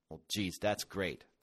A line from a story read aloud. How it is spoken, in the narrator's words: grumbled Grant